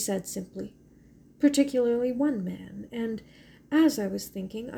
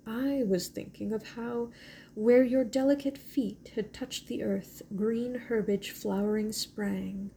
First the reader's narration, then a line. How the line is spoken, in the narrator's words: he said in a low, shaken voice